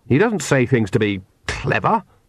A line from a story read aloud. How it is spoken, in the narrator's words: said Oates hotly